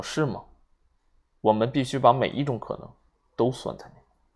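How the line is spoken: Cold, low voice. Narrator (Chinese): 瓦格雷夫法官冷冷的看了他一眼，低声说

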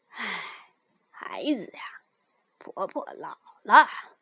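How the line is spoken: Sighing. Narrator (Chinese): 大野狼叹了口气说

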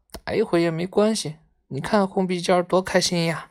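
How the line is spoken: Sighing. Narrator (Chinese): 毛毛叹了一口气说

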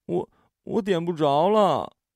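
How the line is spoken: Near tears. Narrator (Chinese): 艾琳几乎带着哭腔

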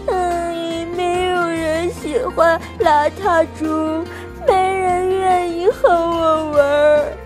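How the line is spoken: Crying. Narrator (Chinese): 他边哭边说

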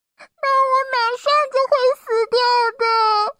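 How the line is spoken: Crying. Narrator (Chinese): 肚子里的红头哭了起来

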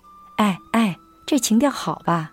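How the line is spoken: Shouting. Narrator (Chinese): 我冲着他喊道

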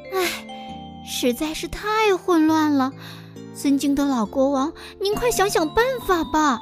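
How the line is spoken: Sighing. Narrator (Chinese): 小灰鼠叹了口气

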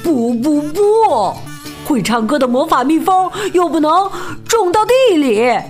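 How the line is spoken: Displeased shouting. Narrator (Chinese): 鲁巴鸭……不但没有高兴，还大喊

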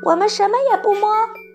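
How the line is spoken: Children shouting. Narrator (Chinese): 孩子们叫道

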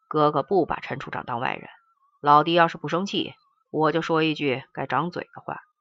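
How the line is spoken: Sighing. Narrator (Chinese): 刘大健叹了一声说

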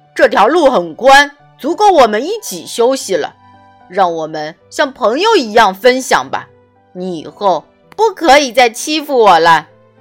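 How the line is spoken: Loud, mustering courage. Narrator (Chinese): 狮子深呼吸一下，鼓起勇气，大声对河马说

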